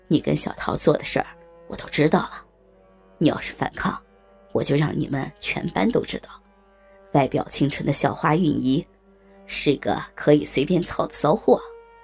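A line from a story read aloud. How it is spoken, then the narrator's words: Low voice in ear. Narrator (Chinese): 阿飞便在她的耳边低声说道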